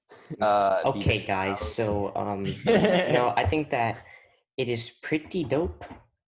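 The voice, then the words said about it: Imitates another person's voice. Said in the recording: “that's a pretty good impression”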